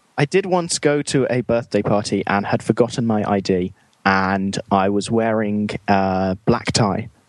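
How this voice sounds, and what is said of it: British accent. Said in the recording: “Once you have a British accent, everyone assumes you're really refined and sophisticated and mature.”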